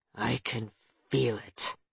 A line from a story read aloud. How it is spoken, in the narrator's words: he said through gritted teeth